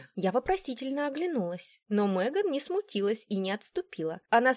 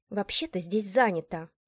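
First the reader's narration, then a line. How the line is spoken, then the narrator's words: Through gritted teeth. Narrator (Russian): процедила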